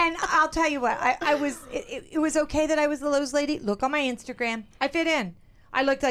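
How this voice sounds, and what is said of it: Usual voice. Nothing is said of it.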